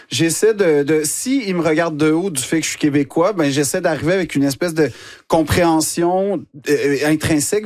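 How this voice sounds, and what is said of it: Québécois French accent. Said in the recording (French): “l'accent québécois ... tu le dis avec cet accent”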